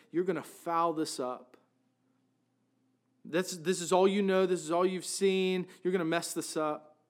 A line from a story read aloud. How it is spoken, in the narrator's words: Satan would whisper in my ear